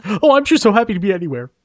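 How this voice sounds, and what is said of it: Chuck Todd impression. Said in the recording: “my Chuck Todd impression”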